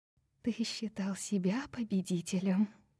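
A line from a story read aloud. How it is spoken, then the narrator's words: Whisper. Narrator (Russian): прошептала Брайс, обращаясь к саркофагу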